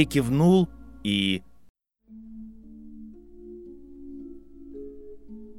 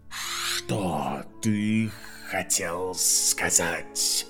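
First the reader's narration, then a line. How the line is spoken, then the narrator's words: Hissed reply. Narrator (Russian): Гарри прошипел в ответ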